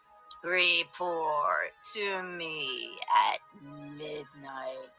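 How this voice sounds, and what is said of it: Deep snarling villain voice. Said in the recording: “snarls Thorn, speaking with a deep voice.”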